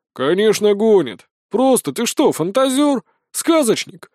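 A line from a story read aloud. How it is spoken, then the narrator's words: Skeptical snort. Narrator (Russian): хмыкнул рядовой Гер Криса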